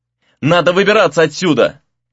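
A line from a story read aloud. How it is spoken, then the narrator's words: Shouted to distant friends. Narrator (Russian): крикнул Рэй друзьям в надежде, что те услышат его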